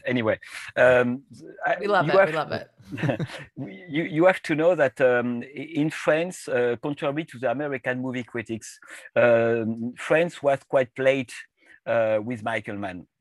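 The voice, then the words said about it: Speaks English with an accent. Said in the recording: “sorry for my accent.”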